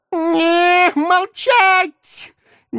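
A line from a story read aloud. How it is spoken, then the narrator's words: Sudden piercing high shriek. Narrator (Russian): Неожиданно резко взвизгнул нечистый на столь высокой и пронзительной ноте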